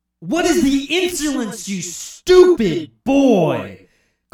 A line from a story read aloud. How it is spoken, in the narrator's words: Garfield roared with outrage